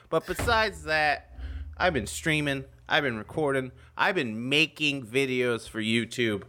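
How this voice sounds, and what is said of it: Raspy, hoarse voice. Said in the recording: “Do you like the sound of my raspy voice?”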